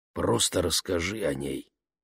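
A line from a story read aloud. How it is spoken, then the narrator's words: Quiet. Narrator (Russian): негромко посоветовал мистер Уокер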